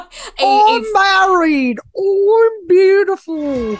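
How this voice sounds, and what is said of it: Attempted Australian accent. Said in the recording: “trying to perfect Australian accents ... I'm not great with accents”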